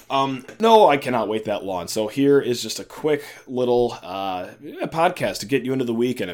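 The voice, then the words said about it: Worn-out, damaged voice. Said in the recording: “my voice is in shambles”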